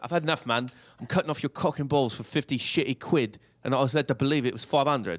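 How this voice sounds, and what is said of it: Put-on accent. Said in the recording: “Here I'll do the accent.”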